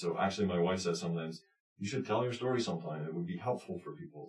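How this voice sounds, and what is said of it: Mild Scottish accent. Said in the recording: “a bit of an accent, not terribly strong, but there's one there ... a remnant of a Scottish accent”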